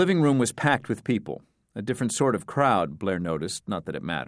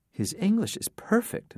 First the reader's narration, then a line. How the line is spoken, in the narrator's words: Nora whispered to Blair